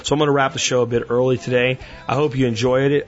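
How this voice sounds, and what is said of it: Strained, tired voice. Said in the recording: “my voice is a little bit strained”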